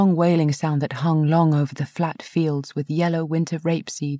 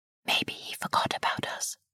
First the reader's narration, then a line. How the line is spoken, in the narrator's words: I whispered